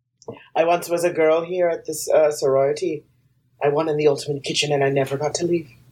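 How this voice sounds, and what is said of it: Put-on Irish-Jamaican sounding accent. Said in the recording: “This accent sounds a little Irish and Jamaican”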